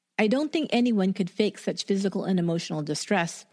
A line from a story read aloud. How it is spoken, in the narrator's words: Bradbury said